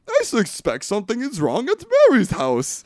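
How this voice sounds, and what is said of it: Imitates a film character's accent. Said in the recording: “you think I'm doing a bad accent. That's on point... That is on point with Nathan Lane is doing”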